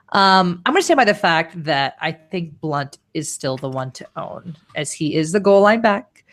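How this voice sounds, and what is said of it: Congested, deeper voice from a cold. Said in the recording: “I've got a cold, so I sound even more like a man than usual”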